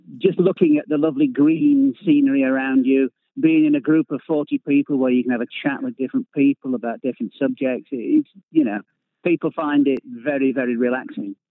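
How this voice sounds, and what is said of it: Northern English regional accent. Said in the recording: “we can tell from your accent that you're not from these parts. So Somerset, how does it compare to, are you Lancashire, Yorkshire?”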